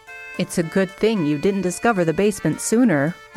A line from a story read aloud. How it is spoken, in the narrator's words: Ron chuckled